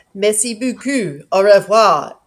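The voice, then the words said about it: French spoken with English accent. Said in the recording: “fairly English-sounding French accent”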